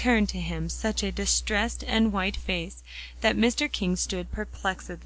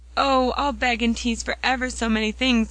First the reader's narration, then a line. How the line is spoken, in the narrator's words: cried Polly radiantly, her color coming back